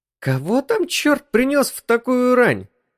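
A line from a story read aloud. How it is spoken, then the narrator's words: Exclaimed. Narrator (Russian): воскликнула Джоан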